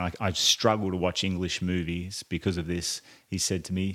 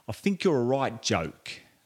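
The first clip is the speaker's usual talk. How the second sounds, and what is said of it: Poor imitation of thick English accent. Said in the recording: “in a thick English accent ... it's a very poor accent, I know”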